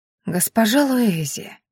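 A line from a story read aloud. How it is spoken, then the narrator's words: Ingratiating sing-song, smiling. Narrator (Russian): вкрадчиво пропела девушка, слегка приподнимая губы в улыбке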